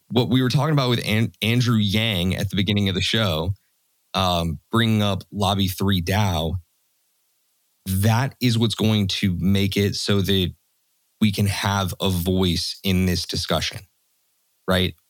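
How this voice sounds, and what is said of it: Strained, worn-out hoarse voice. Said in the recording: “my voice is shot”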